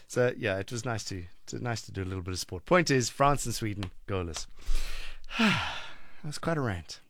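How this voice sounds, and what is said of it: Sore-throated, congested voice. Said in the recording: “My throat is sore. I have a cold.”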